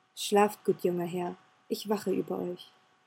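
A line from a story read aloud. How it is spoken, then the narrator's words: Said quietly. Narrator (German): sagte leise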